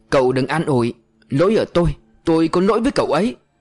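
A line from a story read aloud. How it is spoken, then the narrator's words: Scream. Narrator (Vietnamese): Anh Hùng thét lên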